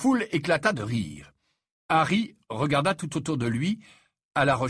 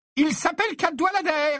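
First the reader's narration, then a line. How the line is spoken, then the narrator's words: Loud voice. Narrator (French): dit le professeur McGonagall d'une voix forte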